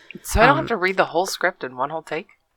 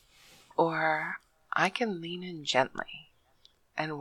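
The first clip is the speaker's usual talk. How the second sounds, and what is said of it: Slow soft whisper. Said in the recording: “whispering softly ... go really as slow as possible”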